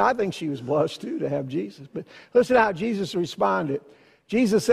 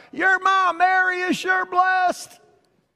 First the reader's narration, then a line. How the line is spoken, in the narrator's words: some mother hollered out, some lady hollered out